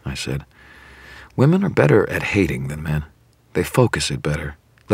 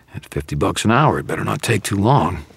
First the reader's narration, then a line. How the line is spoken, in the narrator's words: Carmichael growled